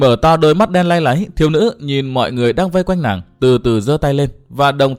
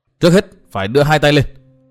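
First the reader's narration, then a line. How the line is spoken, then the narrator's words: Loud shout. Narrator (Vietnamese): Bất giác Dương Văn Nghiêu hét to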